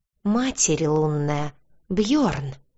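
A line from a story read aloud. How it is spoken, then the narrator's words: Gasped behind hand. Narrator (Russian): выдохнула я, прикрыв ладонью рот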